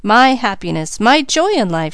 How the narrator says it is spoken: she exclaimed

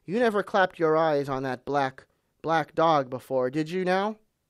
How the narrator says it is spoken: said Long John very sternly

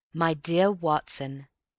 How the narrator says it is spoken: he said

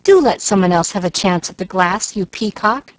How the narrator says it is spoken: exclaimed Molly Lou

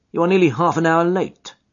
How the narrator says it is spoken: said he curtly

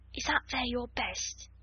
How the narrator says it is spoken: she ventured, looking longingly at the rose-coloured frock, and she asked it almost in a whisper

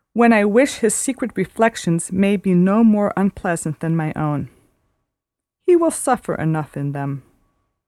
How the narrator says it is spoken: said Marianne at last with a sigh

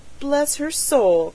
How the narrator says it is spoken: cried the stout woman in amaze

